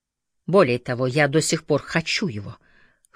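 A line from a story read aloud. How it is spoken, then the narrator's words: Hoarse, furious. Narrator (Russian): хриплым, яростным голосом произнесла Элис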